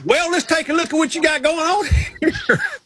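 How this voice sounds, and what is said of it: Put-on Southern US accent. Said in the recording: “Southern accent ... the smartest people I know have a Southern accent.”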